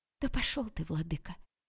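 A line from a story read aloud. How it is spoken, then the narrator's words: Hissing. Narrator (Russian): прошипела Василина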